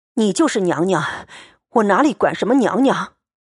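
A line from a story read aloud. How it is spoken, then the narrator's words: Panting breathlessly. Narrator (Chinese): 贾琏喘吁吁答道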